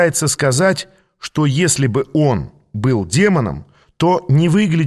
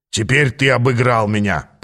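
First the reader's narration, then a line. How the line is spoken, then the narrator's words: Grumbling. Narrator (Russian): проворчал Ааз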